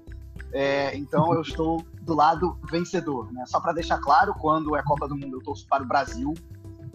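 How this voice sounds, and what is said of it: Brazilian Portuguese accent. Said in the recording (Portuguese): “pelo meu sotaque, eu sou brasileiro”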